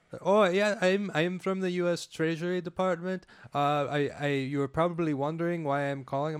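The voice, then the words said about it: Put-on accent imitating a caller. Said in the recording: “You do a great accent.”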